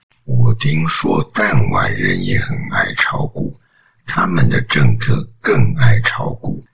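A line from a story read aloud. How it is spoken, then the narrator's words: Calm smiling speech. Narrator (Chinese): 川大统领笑了笑，不疾不徐地说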